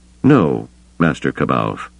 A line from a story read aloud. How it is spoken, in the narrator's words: Skywalker said, his voice almost gentle